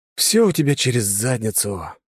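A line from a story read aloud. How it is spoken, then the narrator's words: Sighing. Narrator (Russian): вздохнул я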